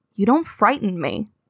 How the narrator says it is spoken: says calmly

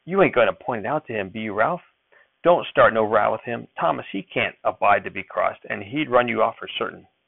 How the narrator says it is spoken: Millie her voice was pleading when she asked

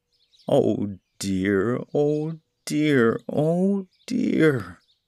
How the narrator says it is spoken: he wailed aloud

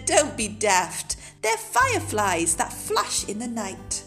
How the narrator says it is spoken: Night Monkey laughed and said

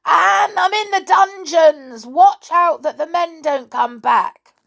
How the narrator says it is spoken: He put his head into the well opening and yelled at the top of his voice

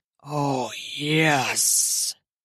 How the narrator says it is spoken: he hisses

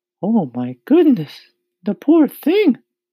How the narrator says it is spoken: the ladybug cried

